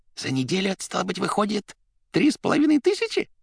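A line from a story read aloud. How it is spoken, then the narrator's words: Hoarse wheeze. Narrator (Russian): он просипел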